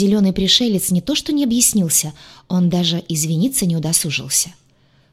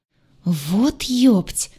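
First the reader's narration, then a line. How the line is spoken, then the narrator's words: Gurgling alien. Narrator (Russian): булькнул зеленый пришелец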